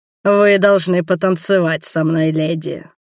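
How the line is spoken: Deep bass. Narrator (Russian): пробасил

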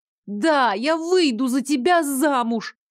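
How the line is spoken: Loud, enthusiastic shout. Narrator (Russian): Во весь голос крикнула я, постаравшись, чтобы в моем тоне прозвучало как можно больше воодушевленной экспрессии

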